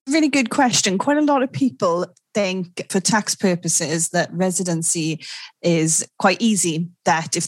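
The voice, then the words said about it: Welsh accent. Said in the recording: “she is, in fact, Welsh, which you might notice for yourself from her accent”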